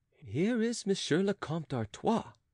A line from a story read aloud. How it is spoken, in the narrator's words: said Oliva softly to her companion